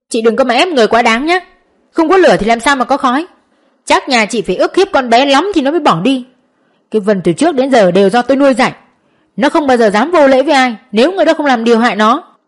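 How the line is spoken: Loud angry shout. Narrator (Vietnamese): Ông ta quát lớn

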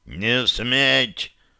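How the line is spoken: Northerner growling. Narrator (Russian): прорычал северянин

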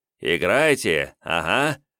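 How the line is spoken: Condescending snort. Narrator (Russian): хмыкнув, милостиво кивнул Жмудин

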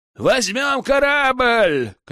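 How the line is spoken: Shout. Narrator (Russian): крикнул Аркан

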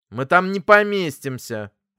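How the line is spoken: Angry. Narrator (Russian): проговорил сердито

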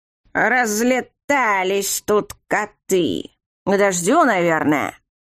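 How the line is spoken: Grumbling. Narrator (Russian): Проворчал еще один знаменитый скандер

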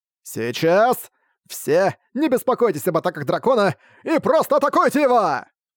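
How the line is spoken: Shouted. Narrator (Russian): Прокричав, Арк

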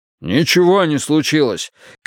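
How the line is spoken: Shouted back. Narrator (Russian): крикнул в ответ Вудвард

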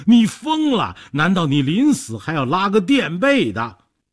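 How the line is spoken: Trembling, fearful. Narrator (Chinese): 说着抱头伏案，抖成一团

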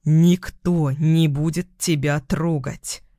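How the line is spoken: Growled. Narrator (Russian): Прорычал

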